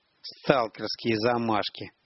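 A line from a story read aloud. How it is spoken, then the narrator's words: Muttered through teeth. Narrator (Russian): процедил Палыч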